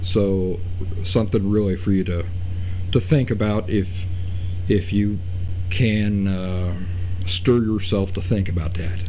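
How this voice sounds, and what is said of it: Loud voice over background noise. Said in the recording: “I'm talking very loud ... I'm talking over the noise”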